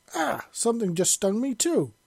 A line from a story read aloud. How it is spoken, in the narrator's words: he yelped